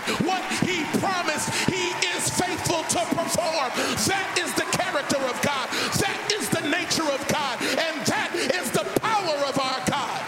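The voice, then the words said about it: Yelling excitedly. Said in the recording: “I'm yelling, but I'm excited”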